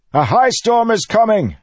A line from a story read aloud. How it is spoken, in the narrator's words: he shouted, but his voice was quickly lost in the tumult of voices